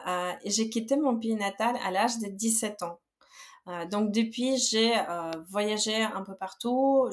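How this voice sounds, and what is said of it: Slight Belarusian accent in French. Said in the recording (French): “je suis originaire de Biélorussie. Je pense que c'est possible de détecter avec un petit accent.”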